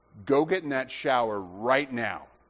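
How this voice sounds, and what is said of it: Stern dad voice. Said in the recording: “He just used a dad voice.”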